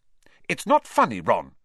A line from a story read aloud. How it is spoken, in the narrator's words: said Hermione sharply